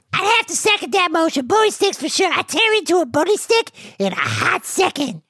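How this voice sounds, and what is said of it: Usual voice. Nothing is said of it.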